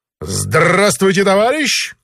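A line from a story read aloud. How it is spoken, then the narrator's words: Loud. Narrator (Russian): громко сказал великий комбинатор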